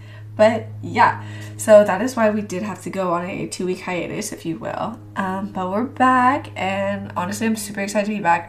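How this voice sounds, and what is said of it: Slightly rough, recovering voice. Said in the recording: “It really felt like a nasty cold for me ... My voice is still a little iffy”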